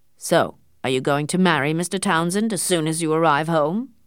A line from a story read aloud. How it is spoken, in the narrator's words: he asked in a hard voice